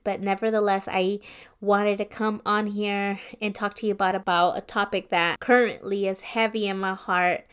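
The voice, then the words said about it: Slightly raspy voice. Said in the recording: “my voice might sound a little bit raspier than usual just because a flu hit me”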